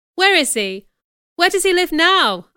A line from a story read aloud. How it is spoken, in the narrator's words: asked impatiently